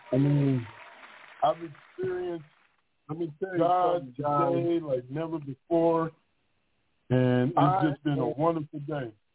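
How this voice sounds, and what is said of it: Excited, amped-up delivery. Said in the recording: “hear the excitement in my voice? ... If you see I'm a little more amped up”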